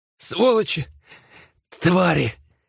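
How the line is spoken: Astonished gasp. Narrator (Russian): выдохнула одна из женщин, изумленно

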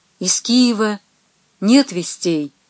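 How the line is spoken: Weak-voiced question. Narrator (Russian): вопросил князь слабым голосом

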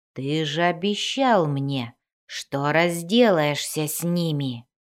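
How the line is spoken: Spider growling. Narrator (Russian): зарычал паук

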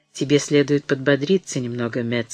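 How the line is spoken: Said tenderly. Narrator (Russian): сказала она ласково

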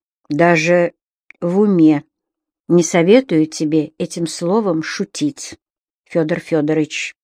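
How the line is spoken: Quiet, mood darkened. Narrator (Russian): тихо сказала вьюга, и сразу точно водою смыло ее хорошее настроение

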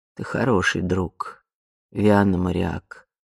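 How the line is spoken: Quiet. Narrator (Russian): тихо произнесла она

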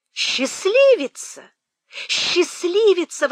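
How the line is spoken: Breathless astonished exclamation. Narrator (Russian): воскликнула Мэри, едва к ней вернулся дар речи

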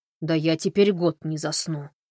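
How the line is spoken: Grumbled. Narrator (Russian): проворчал Эрл

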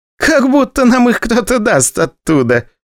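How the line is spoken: Laughing. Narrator (Russian): посмеялась Вера

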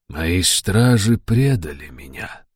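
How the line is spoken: Soft, gentle. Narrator (Russian): мягко проговорил Джадефер

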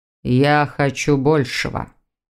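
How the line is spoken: Male grumble. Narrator (Russian): проворчал мужчина

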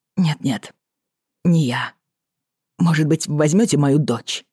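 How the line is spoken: Blurted, then quiet. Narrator (Russian): Выпалил, собравшись с духом, и тихо добавил

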